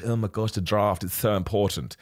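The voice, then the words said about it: Put-on posh accent. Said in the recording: “talk in a really posh accent”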